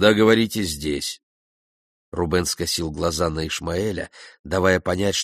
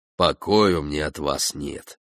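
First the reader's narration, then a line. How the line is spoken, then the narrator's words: Grumbling. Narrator (Russian): проворчал он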